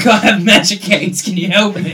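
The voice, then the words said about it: Impression of Pip. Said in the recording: “That was a very good impression of Pip.”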